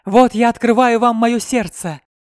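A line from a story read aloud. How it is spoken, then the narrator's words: Exclamation. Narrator (Russian): воскликнул Филипп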